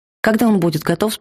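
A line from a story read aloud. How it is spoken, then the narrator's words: Plain question. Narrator (Russian): спросил я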